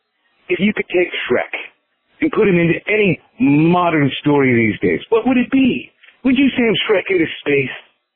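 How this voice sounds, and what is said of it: Put-on accent. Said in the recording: “that's all I can do for my accent”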